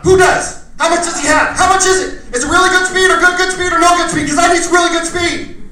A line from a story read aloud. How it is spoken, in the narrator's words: right away I yelled out